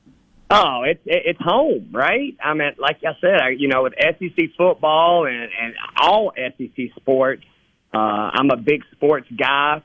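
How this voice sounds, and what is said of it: Southern American accent. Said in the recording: “Southern accent. You come about it pretty naturally”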